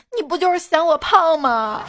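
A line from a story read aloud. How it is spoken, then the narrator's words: Crying. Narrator (Chinese): 女朋友哭着说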